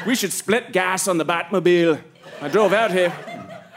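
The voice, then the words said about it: Put-on South African accent. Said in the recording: “that South African accent”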